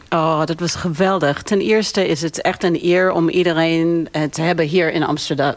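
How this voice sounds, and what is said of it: Slight American accent in Dutch. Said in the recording (Dutch): “je hebt een licht accent, want je komt oorspronkelijk uit New York”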